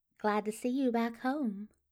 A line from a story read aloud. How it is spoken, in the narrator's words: the maid says, her voice honey sweet